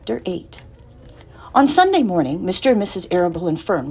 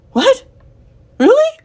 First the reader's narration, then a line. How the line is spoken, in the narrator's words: cried Wilbur